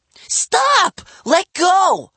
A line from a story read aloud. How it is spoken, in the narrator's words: my sister screamed